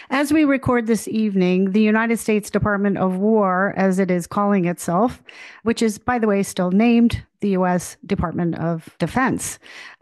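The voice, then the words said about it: Hoarse, flu-affected voice. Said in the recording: “quite hoarse tonight. Yep, I got that flu flying around Washington.”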